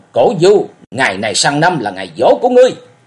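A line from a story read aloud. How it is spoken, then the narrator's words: Frenzied shout. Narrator (Vietnamese): Lý Mộng quát điên cuồng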